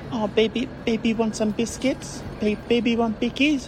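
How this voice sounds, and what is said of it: Childish baby voice. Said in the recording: “in that baby voice ... the baby voice”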